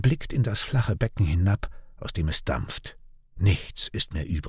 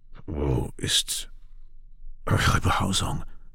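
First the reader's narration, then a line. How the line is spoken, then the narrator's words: Muffled question. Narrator (German): fragt er mit gedämpfter Stimme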